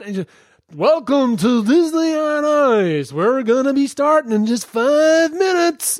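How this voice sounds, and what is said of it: Announcer voice drifting into American accent. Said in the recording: “my accent just moved across America”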